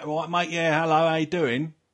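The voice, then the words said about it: Put-on East London Cockney accent. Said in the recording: “You can just go across London and it changes. So in the east, it's all like, everyone talks like that ... Cockney”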